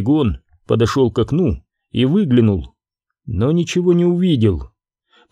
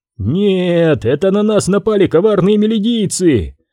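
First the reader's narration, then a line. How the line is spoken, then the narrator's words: Shout. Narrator (Russian): одновременно с ним закричал Гуэни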